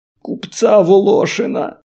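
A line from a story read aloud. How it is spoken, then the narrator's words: Almost tearful. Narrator (Russian): Чуть ли не сквозь слезы ответил Тать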